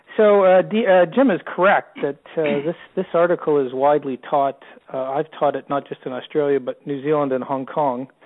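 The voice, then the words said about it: Canadian accent. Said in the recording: “I sound like a Canadian down in Australia, I am a Canadian”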